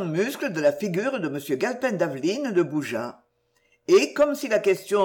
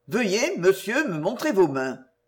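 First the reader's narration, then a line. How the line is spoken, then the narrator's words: Cold. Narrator (French): dit-il froidement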